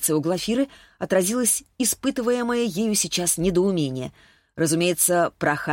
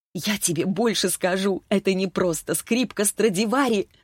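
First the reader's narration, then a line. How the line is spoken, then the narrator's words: Laughing. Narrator (Russian): снова засмеялась Таисия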